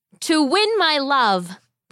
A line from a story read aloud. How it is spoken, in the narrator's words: the boy shouted back